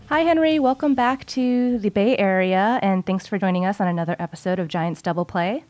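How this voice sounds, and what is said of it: Slightly wheezy, hoarse voice. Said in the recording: “I'm sounding a little wheezy today ... a little hoarseness in the voice”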